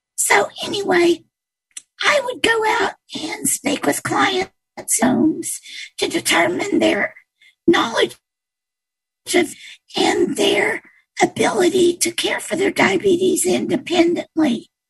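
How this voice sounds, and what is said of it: Impaired, damaged speaking voice. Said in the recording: “this is the voice I have, even though I used to be a singer... this is the voice I've been left with due to some vocal cord paralyzation and intubation... sorry for my voice”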